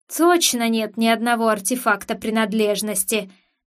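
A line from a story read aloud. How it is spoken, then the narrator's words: Growled through gritted teeth. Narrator (Russian): сквозь зубы прорычал Дарк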